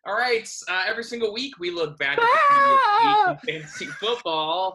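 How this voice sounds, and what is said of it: Spooky voice. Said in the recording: “I'm just going to say everything in a spooky voice”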